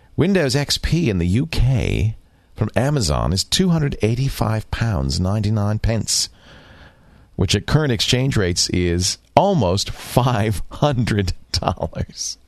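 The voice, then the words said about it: Put-on posh British accent. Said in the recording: “I'll try to do this in my best posh accent”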